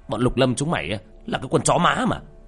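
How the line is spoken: Furious shout. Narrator (Vietnamese): Tên to con nhất cũng không dám chống cự, định quay đi, nhưng dường như hắn nổi máu điên, hắn hét lên trong cơn thịnh nộ

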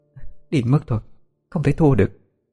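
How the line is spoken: Muttering. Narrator (Vietnamese): lẩm bẩm

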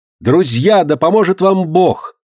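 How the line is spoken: Final shout. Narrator (Russian): крикнула в последний раз Элен Сьюта

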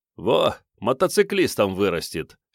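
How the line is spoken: Snorting chuckle. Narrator (Russian): хмыкнул Начо Пирот

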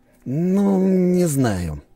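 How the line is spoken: Doubtful mumble. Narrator (Russian): промямлил он с сомнением

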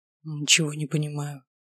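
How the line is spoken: Whisper. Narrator (Russian): прошептал он

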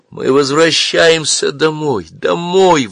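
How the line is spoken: Excited joyful repetition. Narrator (Russian): возбужденно повторяла она, сияя от счастья

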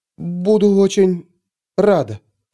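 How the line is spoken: Forced, strained. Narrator (Russian): с трудом выдавила Пандора

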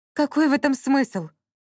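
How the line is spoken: Exclaimed, witch. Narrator (Russian): воскликнула ведьма

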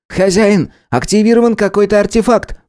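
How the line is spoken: Exclaiming. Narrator (Russian): воскликнул Харек

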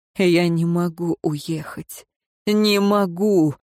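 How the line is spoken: Moaning. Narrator (Russian): простонал Динталь

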